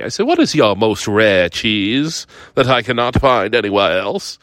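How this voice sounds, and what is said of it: Put-on fancy accent. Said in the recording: “I did this in an accent because I'm very fancy as a foodie.”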